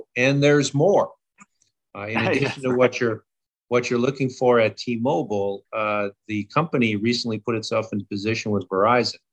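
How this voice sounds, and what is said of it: Late-night infomercial announcer voice. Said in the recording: “my imitation then of the late night infomercial”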